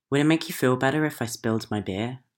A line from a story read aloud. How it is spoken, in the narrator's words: I asked her